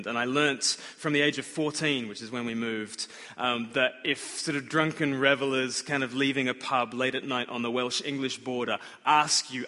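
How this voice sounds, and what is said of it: Australian accent. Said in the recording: “you've got a funny accent ... I'm from Australia”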